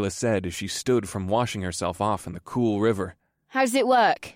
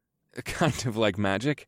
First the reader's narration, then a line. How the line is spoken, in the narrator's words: I chuckled